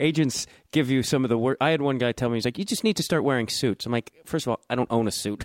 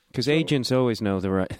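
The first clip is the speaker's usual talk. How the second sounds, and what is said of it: Sarcastic tone. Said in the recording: “I'm being sarcastic.”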